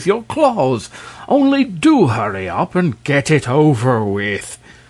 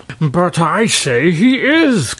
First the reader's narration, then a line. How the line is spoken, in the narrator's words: cried Terribus